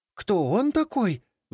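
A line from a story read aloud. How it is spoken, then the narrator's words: Shrill squeal. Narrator (Russian): взвизгнула Анастасия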